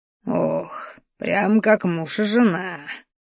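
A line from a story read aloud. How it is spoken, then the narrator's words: Contented sigh. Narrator (Russian): довольно вздохнул Рахтар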